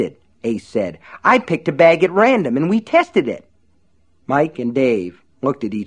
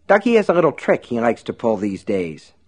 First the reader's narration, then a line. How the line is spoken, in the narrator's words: Dave said